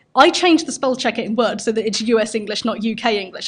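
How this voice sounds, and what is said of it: British English accent. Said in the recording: “as you can probably tell by my accent, I'm from the UK”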